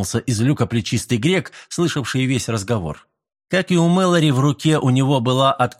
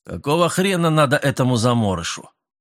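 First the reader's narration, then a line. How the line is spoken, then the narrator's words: Angry question. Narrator (Russian): сердито спросил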